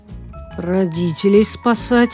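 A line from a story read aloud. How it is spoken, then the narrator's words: Resigned sigh. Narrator (Russian): обреченно вздохнул Тоша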